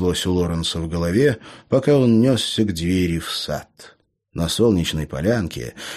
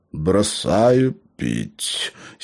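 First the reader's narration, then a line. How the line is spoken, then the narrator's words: Hoarse voice. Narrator (Russian): сиплым голосом поведал гном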